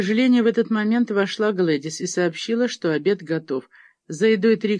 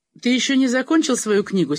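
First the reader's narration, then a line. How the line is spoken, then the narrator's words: Angry question. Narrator (Russian): сердито спросила Трикси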